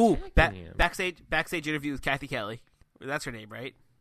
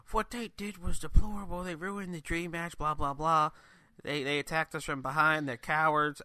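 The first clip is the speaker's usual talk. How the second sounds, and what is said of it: Bad Southern Georgian accent impression. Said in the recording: “terrible impression, Southern Georgian impression ... not even close Georgian accent ... terrible Georgian accents”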